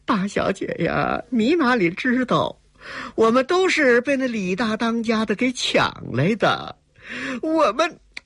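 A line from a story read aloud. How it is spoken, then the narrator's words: Breaking into choked sobs. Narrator (Chinese): 呜噎着又哭了起来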